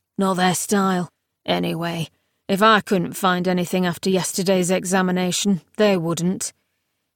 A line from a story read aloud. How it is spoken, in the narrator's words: said gloomily